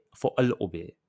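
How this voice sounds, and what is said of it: Put-on accent. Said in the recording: “I know y'all tired of that accent, but it's my favorite accent.”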